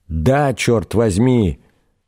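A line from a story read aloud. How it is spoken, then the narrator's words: Old man's outcry, half-raised. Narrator (Russian): выкрикнул, приподнявшись на локте старый учитель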